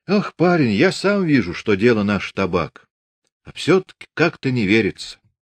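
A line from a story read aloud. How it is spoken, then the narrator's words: Sighing. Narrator (Russian): вздохнул Прохор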